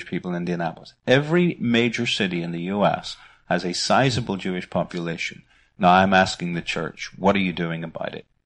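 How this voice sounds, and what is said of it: Northern Irish accent. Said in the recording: “I haven't really won the American accent yet. I'm sorry, it's still my Northern Irish accent.”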